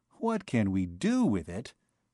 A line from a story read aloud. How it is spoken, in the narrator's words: he asked, almost kindly